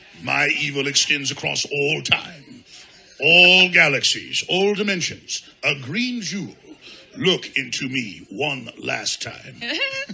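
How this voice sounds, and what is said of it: Imitated villain voice from a film. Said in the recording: “let's do the voice from Heavy Metal”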